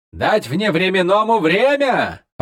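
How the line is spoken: Laughing. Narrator (Russian): рассмеялся Малигас

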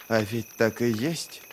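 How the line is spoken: Muttered. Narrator (Russian): пробормотал Ки

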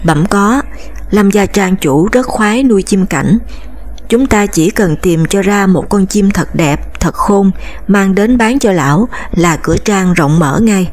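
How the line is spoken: Smiling. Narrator (Vietnamese): mỉm cười

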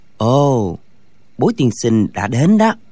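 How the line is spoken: Soft. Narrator (Vietnamese): Thạch Phá Thiên khẽ nói

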